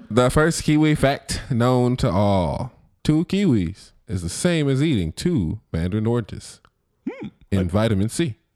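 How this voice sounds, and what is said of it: Put-on transatlantic accent. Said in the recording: “transatlantic accent”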